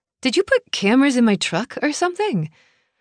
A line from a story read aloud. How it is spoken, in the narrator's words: Trace laughed, and it was damn good to hear the sound coming from my eldest brother